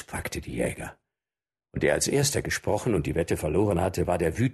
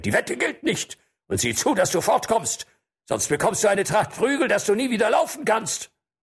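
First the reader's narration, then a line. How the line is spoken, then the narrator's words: Roaring. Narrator (German): brüllte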